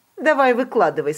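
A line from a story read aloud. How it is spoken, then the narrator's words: Displeased voice. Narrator (Russian): сказала она недовольным голосом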